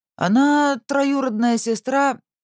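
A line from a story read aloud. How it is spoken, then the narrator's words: Uncertain. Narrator (Russian): неуверенно глядя на Веронику, начал Тобиас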